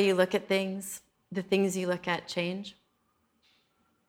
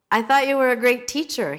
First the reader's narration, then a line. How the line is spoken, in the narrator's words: he shouted